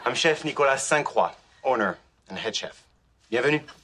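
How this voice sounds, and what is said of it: French accent. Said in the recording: “do I detect a French accent?”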